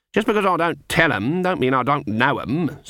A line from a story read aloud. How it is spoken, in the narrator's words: said Granny haughtily